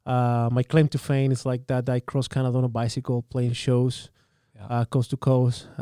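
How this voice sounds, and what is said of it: Chilean Spanish accent in English. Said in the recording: “my accent comes from Muzja ... I'm born and raised in Chile.”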